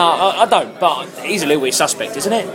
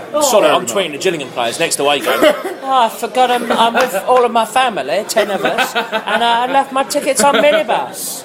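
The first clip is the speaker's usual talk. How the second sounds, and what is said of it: Put-on Chinese accent. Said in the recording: “I don't know why I'm talking in a Chinese accent.”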